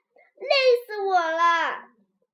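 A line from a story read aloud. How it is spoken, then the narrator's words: Exhausted shouting. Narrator (Chinese): 咪咪拔得满头大汗，跌坐在椅子上，直喊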